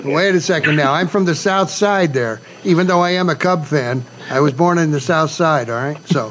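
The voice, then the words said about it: Chicago accent. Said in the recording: “those of us from Chicago sometimes come out with the accent ... you sound like Archie Bunker.”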